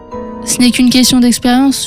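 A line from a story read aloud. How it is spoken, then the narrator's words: Plain. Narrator (French): lui dit-il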